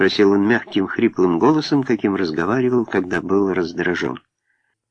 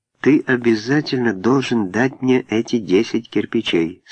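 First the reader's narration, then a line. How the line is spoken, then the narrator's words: Plain. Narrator (Russian): сказала Лора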